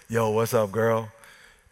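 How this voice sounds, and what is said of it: Smooth late-night radio voice. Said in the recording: “he said it with like a smooth, late night radio voice.”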